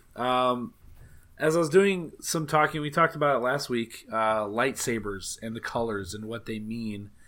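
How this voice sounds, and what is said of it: Slightly raspy voice. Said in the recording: “My voice is a little raspy.”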